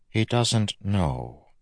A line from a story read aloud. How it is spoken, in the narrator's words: Vendel said softly